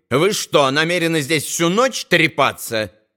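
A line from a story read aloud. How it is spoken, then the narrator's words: Angry question. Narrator (Russian): сердито осведомилась она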